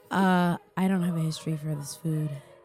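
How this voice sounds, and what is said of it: Smooth radio-announcer voice. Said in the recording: “In my podcasting voice. ... She just did a voice to say that. ... We're very, very smooth and radio-y.”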